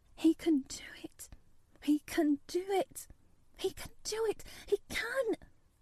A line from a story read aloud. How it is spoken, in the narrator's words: She garbled over to herself under her breath as fast as ever she could